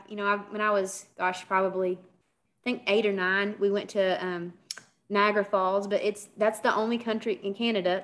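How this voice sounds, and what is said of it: Kentucky American accent. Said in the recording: “I'm from Kentucky, you know, you hear my accent”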